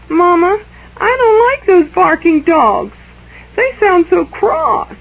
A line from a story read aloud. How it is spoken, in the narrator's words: Esther began to whimper